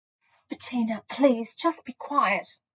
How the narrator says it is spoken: I said, desperately trying to channel some serenity

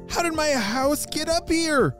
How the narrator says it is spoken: Poppy shouted

